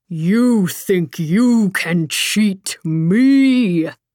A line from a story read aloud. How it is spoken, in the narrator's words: Baird bellowed